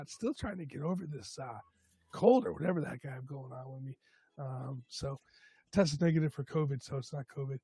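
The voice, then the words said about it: Hoarse, worn-out voice from a cold. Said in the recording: “my voice is shot today ... my voice is shot either way”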